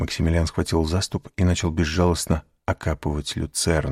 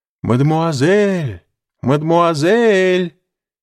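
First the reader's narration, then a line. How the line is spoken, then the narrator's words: Distant shout from trees. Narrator (Russian): кричал чей-то голос из-за деревьев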